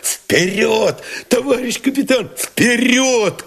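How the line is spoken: Shout. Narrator (Russian): крикнул Новиков

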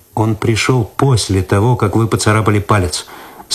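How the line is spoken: Calm objection. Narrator (Russian): спокойно возразил Цветков

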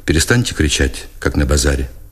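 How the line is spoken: Flat colorless voice. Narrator (Russian): Книжко покривился, будто от тупой боли, сказал бесцветным голосом

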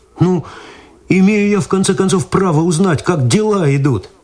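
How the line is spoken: Pleading. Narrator (Russian): взмолился Виталий

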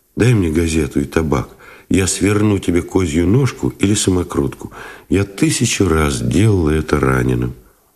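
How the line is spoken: Soft request. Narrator (Russian): попросила мягко

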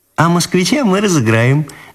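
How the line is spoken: Laughing girl. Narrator (Russian): засмеялась Ниночка

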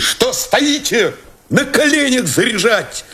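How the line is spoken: Shout. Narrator (Russian): крикнул Новиков

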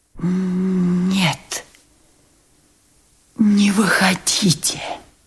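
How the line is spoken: Strained whisper. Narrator (Russian): прошептал наконец и с усилием перевел дух

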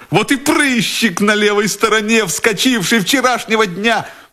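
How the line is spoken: Joyful, nearly laughing. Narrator (Russian): Майор чуть не засмеялся от радости

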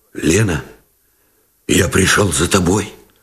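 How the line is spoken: Muffled, hoarse. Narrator (Russian): Глухо и хрипло выговорил Новиков

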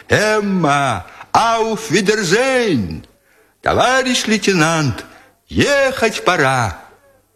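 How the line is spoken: Soldiers cheerfully shouting, overlapping. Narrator (Russian): голоса солдат, которые весело кричали им в разнобой

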